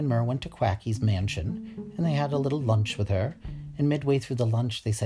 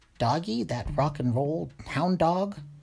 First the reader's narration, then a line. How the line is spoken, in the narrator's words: Quacky choked on her watercress salad, and she went